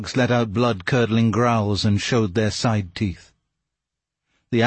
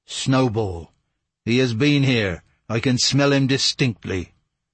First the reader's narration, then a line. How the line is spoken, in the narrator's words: exclaim in a terrible voice